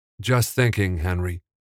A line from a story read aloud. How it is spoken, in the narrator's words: Evan sighed